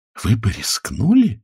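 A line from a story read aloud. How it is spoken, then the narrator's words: Awed, fearful whisper. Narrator (Russian): с благоговейным ужасом прошептала жена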